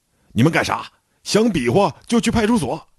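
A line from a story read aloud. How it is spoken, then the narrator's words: Urgent shout. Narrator (Chinese): 我赶紧大喊一声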